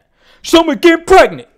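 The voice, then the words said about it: Imitates another person's voice. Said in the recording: “do a Tracy Morgan impression ... That was my impression”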